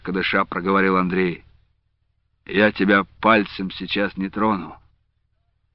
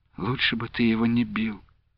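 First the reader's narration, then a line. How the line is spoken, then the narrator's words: Quiet. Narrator (Russian): промолвила она тихо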